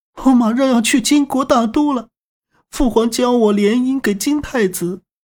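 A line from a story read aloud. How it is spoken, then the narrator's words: Tearful complaint. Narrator (Chinese): 他哭诉道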